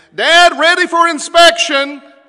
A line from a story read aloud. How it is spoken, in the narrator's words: yell down the hallway